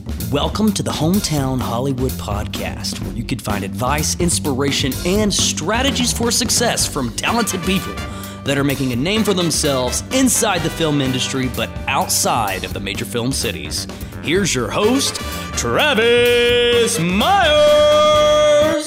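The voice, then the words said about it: Announcer-style radio voice. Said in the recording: “going to do my radio voice.”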